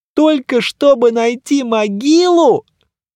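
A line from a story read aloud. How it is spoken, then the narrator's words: On the verge of tears. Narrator (Russian): в шаге от рыданий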